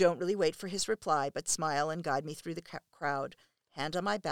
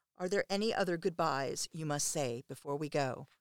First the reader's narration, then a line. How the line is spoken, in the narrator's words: you murmur in my ear